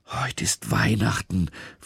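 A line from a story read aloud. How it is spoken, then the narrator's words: Whisper. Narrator (German): flüstert er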